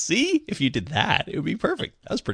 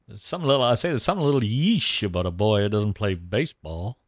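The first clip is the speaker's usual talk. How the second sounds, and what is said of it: Foghorn Leghorn impression. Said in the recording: “do Foghorn Leghorn ... my only Foghorn Leghorn that I know”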